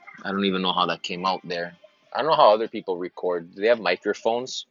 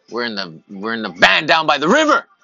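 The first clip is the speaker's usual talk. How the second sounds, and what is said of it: Yelling. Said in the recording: “Sorry for yelling.”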